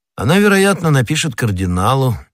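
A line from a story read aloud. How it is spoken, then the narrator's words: Casual reply. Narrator (Russian): небрежным тоном ответил Атос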